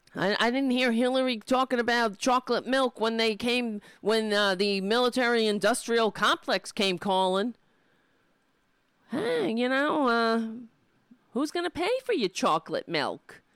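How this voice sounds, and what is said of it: Strained, hoarse ranting voice. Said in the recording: “I'm losing my voice.”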